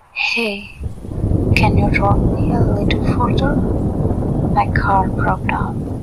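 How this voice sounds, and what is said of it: Very sweet, melodious voice. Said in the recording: “With a sad face, in a very sweet voice ... her melodious voice”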